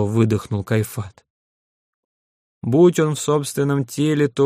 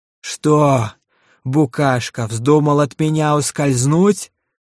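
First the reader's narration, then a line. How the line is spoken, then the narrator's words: Delighted roar. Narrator (Russian): с восторгом проревел Рошак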